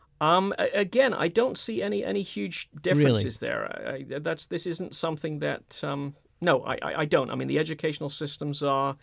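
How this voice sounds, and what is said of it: British accent. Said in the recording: “I've returned to Britain many times... even though the accent may not convey this, I'm very fully American”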